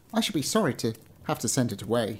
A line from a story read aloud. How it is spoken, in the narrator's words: he said